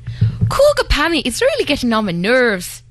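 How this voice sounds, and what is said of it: Put-on Irish accent. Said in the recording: “Do Irish. ... That's not bad.”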